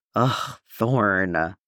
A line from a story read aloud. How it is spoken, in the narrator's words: Waxer sighs